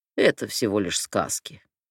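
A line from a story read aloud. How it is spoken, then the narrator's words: Scoffing. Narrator (Russian): хмыкнул Загроз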